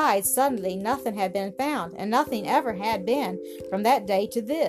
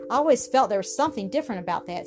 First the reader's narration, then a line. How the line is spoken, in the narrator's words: said Hetty eagerly